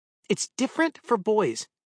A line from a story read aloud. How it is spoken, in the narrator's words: Lucy snapped